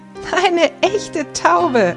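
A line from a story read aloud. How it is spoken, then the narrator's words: Boy laughing. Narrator (German): lacht der Junge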